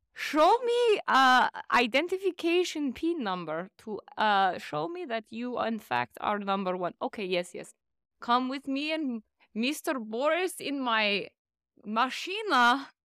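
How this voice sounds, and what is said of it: Put-on Russian accent. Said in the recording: “What accent is that? ... I'm Russian.”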